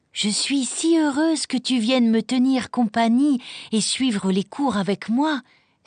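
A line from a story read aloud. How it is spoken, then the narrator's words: Exclaimed. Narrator (French): s'exclama Clara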